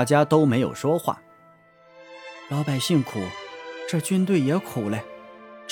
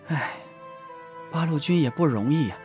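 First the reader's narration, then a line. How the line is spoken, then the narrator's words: Sighing. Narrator (Chinese): 女人叹了一口气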